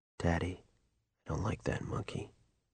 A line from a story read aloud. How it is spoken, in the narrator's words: he said, his voice almost too low to hear